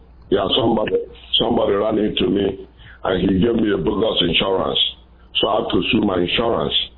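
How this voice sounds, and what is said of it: Nigerian English accent. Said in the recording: “I love that accent. Where are you from? ... I'm from Nigeria, West Africa. ... I can't tag the accents from which African country.”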